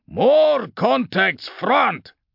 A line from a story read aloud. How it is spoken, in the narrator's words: Sergeant Tarn shouted